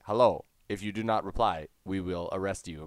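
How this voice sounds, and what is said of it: Robotic automated-call voice. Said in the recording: “robot voice ... bad grammar robot”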